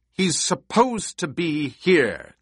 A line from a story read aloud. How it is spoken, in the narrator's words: Jessica snapped